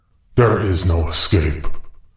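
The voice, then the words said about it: Big, scary narrator voice. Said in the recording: “your big, scary narrator voice ... Mr. Scary Voice”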